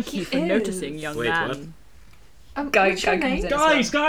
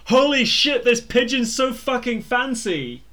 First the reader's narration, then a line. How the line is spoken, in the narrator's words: looking overawed, and just yells